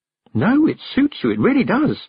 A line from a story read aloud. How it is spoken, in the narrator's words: said Tiffany cheerfully